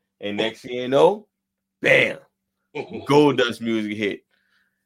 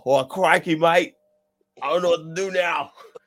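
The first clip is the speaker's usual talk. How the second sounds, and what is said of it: Grayson Waller impression, Australian accent. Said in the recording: “I didn't know we had Grayson Waller on the podcast ... I'm not saying I'm great at impersonation, but crikey, mate. That's Grayson Waller, right?”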